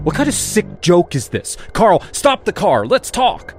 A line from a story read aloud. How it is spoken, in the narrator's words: shouted